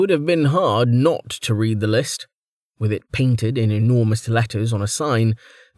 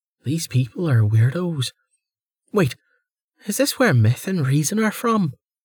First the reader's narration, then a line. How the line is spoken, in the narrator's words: The woman sighed